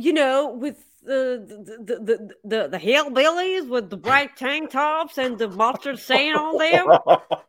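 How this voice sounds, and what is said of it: Put-on Southern Alabama accent. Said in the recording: “That was your Southern accent right there. The Alabama, like, wow, that's impressive.”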